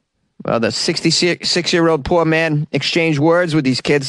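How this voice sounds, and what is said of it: Usual voice. Nothing is said of it.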